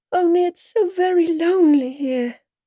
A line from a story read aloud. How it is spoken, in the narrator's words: Alice said in a melancholy voice